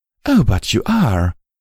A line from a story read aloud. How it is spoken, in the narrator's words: Velvet cooed maturely